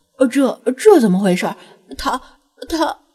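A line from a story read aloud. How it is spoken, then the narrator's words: Startled stammering. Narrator (Chinese): 张子安立刻惊得后退数步，结结巴巴的说道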